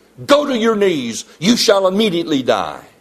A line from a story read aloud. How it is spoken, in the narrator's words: Claverhouse exclaimed